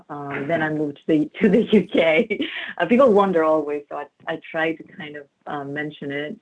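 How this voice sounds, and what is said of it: Greek accent. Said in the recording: “I grew up in Greece ... This is where the accent is coming from.”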